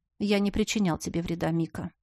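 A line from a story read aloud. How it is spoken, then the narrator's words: Quiet but confident. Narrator (Russian): тихо, но уверенно напомнил герцог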